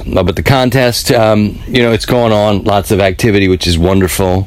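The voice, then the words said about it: Rough, worn-out voice. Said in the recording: “my voice is crap. Uh, but that's why I sound a little different”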